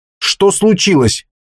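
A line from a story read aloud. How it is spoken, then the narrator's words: Sharp question. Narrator (Russian): резко спросил он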